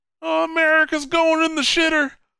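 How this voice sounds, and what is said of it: Crazy hick voice. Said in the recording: “he just sounds like a hick. Like a crazy hick. That's what he sounds like.”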